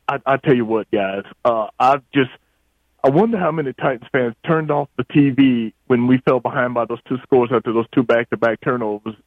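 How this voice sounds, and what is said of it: Hoarse, nearly lost voice. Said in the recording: “excuse my voice a little bit. I voice is about gone from yelling and screaming at the TV.”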